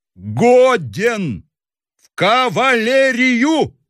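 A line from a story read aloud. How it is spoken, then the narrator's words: Shouting through helpless laughter. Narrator (Russian): закричал председатель, корчась от приступа неудержимого хохота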